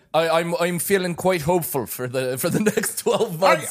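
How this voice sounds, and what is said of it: Put-on accent. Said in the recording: “I don't know why I've adopted this accent, yes. But it feels pretty good.”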